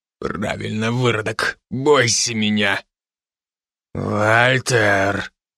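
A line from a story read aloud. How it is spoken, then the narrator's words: Low menacing voice. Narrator (Russian): Угрожающе низким голосом осадил Мишка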